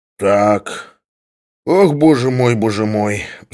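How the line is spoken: Sigh. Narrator (Russian): вздохнул Самойленко

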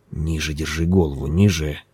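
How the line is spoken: Muttered. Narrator (Russian): пробормотал он

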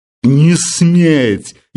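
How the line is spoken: Pained exclamation. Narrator (Russian): явно больным голосом воскликнул Филипп Филиппович

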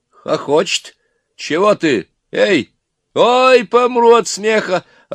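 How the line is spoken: Yelled. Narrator (Russian): орал Иван

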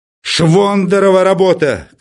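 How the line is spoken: Shouting. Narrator (Russian): кричал Филипп Филиппович

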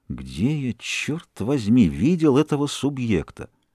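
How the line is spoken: Under the breath. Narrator (Russian): повторяя вполголоса

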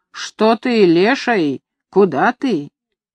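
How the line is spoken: Angry shouting. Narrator (Russian): сердито кричала горшку

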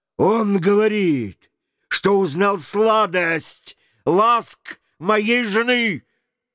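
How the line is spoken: Loud. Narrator (Russian): Мэтта громко сказал

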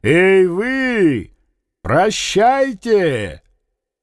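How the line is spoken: Loud mocking shout. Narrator (Russian): он громким, насмешливым голосом крикнул

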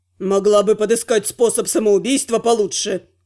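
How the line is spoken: Snapping retort. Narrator (Russian): Огрызнулся Кес

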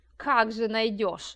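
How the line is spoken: Old man snorting. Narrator (Russian): фыркнул одноглазый старик

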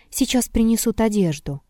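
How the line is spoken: Quiet boy's voice. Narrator (Russian): Тихо сказал кто-то из мальчиков

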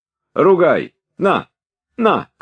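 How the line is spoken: Shout. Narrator (Russian): крикнул он

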